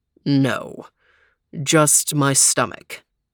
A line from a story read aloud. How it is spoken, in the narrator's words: muttered Overton